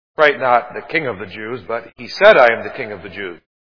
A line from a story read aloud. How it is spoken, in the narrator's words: Pilate answered